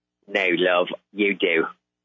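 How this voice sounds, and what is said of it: Put-on British accent. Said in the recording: “does such a great British accent”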